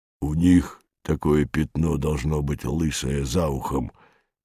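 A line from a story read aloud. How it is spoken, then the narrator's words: Guilty, wary muttering. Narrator (Russian): Виновато и опасливо бормотал незнакомый сепловатый босок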